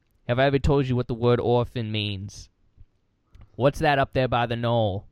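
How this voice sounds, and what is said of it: Imitates another person's voice. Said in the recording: “that's my John Kennedy impression.”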